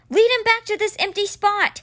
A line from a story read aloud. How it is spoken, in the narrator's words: he shouted to Simber